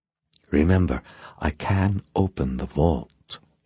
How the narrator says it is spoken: said in a low whisper

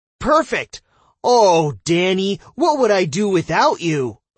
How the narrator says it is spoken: I wildly overreacted, pretending she was even more helpful than she really was

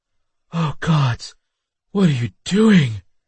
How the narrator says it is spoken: She moaned

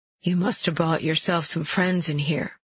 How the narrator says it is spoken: he says

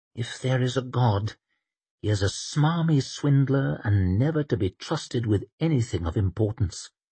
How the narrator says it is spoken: muttered Temple

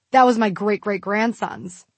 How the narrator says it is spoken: he scoffed

